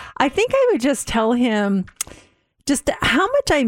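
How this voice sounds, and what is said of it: Usual voice. Nothing is said of it.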